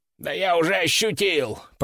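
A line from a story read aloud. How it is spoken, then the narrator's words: Groaning parrot. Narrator (Russian): простонал попугай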